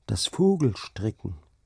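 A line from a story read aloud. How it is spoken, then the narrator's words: Plain. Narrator (German): sagte Hauke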